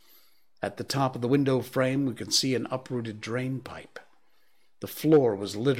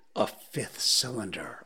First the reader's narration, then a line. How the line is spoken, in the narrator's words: whispered